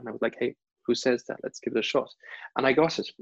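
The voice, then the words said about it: German accent. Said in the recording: “I have a German accent when I talk ... You can't do television with a German accent”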